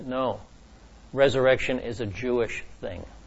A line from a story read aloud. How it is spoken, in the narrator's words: very gently, Andrea said